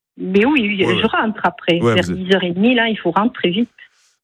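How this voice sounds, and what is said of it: Southern French accent. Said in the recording (French): “on entend un petit accent... j'ai l'accent du midi”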